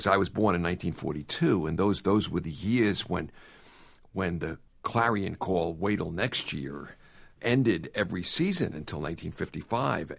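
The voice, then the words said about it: Brooklyn accent. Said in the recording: “as you can tell from this accent, I still carry Brooklyn with me”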